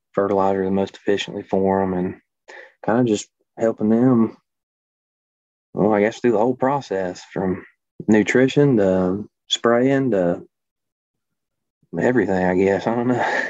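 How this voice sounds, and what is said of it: Non-Northern, Southern US accent. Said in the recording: “I sense that you do not have a Western Illinois accent ... Everybody can kind of tell I'm not from Illinois or anywhere from the north”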